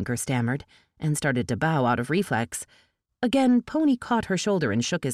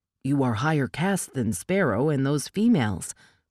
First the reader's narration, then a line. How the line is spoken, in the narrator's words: Pony said